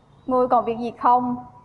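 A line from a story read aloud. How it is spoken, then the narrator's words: Cold. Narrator (Vietnamese): Lam Khải Nhân lạnh lùng nói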